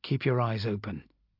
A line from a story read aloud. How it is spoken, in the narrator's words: quietly I added to Sorrel